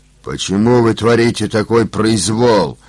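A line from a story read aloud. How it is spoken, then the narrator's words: Angry big man asking. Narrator (Russian): зло спросил здоровяк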